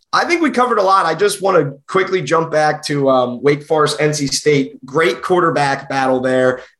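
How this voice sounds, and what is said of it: South Jersey Philadelphia accent. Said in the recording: “The accent, I can tell ... this Jersey is the South Jersey Philly accent”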